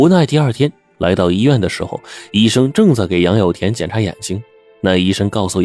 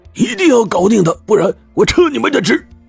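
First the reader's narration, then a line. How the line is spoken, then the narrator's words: Shouting. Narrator (Chinese): 杨有田呢，大叫道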